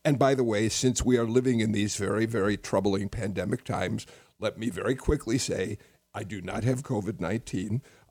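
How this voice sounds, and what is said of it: Weak, hoarse voice. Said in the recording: “my voice is a little weak. I've developed a chest cold, and so I'm a bit hoarse”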